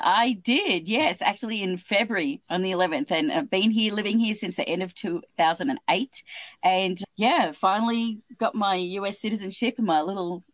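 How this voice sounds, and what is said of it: Australian accent. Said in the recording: “What is that accent? That's not a Southern accent. That's not a British accent. ... But you're from Australia.”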